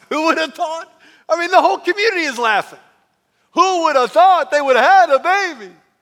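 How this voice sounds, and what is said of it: Weak Jewish accent impression, almost Italian. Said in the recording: “That was my Jewish impression. Not very good. ... Kind of sounded almost Italian.”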